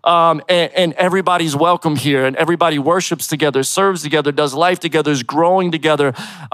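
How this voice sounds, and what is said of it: East Coast Philadelphia accent. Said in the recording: “I'm originally from Philly, so you might hear a little bit of that East Coast flavor, the East Coast accent.”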